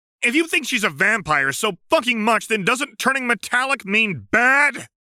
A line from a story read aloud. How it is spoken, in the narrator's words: Karkat yelled